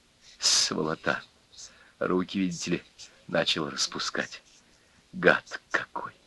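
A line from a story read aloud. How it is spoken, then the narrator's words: Whispered. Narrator (Russian): шептал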